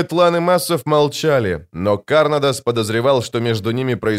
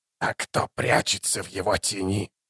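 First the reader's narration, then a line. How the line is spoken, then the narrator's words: Hoarse rasp. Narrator (Russian): прохрипел заклинатель по имени Бек-О-Хан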